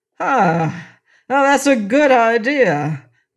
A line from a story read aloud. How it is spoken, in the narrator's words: cried the king